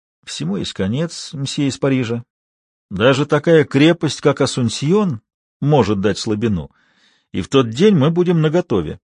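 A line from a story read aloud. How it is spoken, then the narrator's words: Barely audible man. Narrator (Russian): Мужчина чуть слышно проговорил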